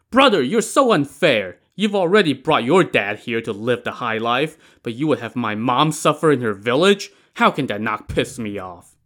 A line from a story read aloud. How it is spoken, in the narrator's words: Li Kui lost his patience and shouted